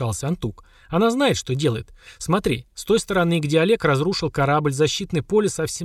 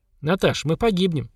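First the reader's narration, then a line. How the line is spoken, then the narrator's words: Calm remark. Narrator (Russian): спокойно заметил Семен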